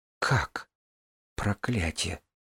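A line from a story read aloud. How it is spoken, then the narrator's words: Muttered. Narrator (Russian): пробормотала Синера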